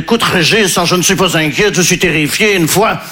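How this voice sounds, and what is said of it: Put-on Belgian French accent. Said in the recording (French): “je prends l'accent belge parce que je ne sais pas faire l'accent ukrainien”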